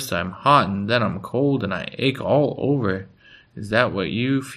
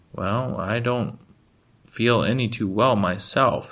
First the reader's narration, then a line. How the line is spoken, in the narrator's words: said Pa